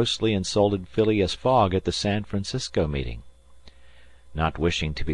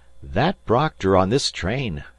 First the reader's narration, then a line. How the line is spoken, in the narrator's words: cried Fix